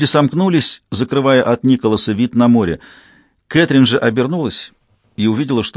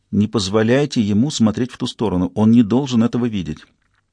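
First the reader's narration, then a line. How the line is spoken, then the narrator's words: Whisper in ear. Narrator (Russian): одна английская мама прошептала на ухо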